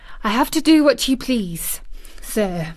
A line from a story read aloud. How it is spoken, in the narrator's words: Martha faltered, turning quite red